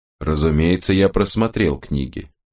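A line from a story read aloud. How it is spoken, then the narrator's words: Cold statement. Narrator (Russian): холодно сказал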